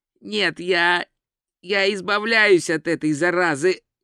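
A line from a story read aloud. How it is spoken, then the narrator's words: Hoarse declaration. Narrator (Russian): хрипло заявил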